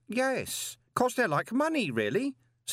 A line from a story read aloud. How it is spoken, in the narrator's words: said Stanley cheerfully